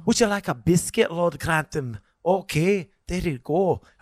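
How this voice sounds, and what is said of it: Imitated Scottish chambermaid character voice. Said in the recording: “You really do a great job. Like, it's phenomenal... Just her accent... From Scotland. She's from Scotland... But it's so good. It's so impressive.”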